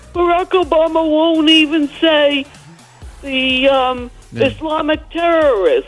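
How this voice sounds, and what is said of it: Imitates another person's voice. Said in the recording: “pretty good Trump impersonation.”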